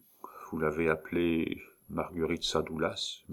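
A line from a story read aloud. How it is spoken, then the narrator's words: Murmur. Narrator (French): murmura-t-il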